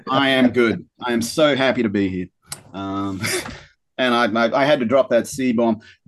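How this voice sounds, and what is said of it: Australian accent. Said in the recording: “his amazing Australian accent”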